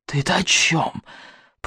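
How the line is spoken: Hissed through clenched teeth. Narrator (Russian): прошипел он сквозь стиснутые зубы

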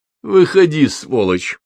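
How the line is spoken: Angry command. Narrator (Russian): Злобно сощурившись, Петр приказал

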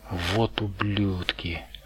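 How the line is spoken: Shaky mutter. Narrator (Russian): пробормотал Перри, и голос его снова дрогнул

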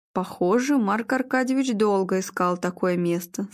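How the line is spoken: Plain. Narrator (Russian): сказал Игорь

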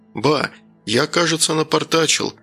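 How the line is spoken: Guilty sigh. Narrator (Russian): виновато вздохнул Данил

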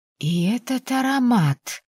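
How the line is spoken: Drawn out. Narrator (Russian): протянула матушка

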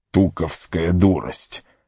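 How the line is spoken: Annoyed grumble. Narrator (Russian): с досадой проворчал Гэндальф

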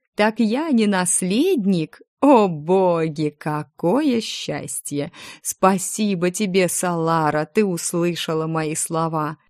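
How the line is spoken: Happy laughter. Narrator (Russian): Он счастливо рассмеялся

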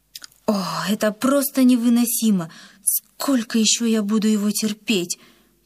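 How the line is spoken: Tearful moan. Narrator (Russian): простонала Рима, сдерживая навернувшиеся слезы

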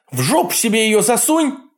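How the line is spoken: Yell. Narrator (Russian): заорала Нора

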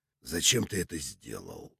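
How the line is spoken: Quiet question, warrior. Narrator (Russian): тихо спросил воятель

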